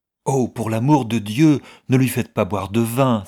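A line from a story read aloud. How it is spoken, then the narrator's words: Exclaimed. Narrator (French): s'écria Mistress Heathcote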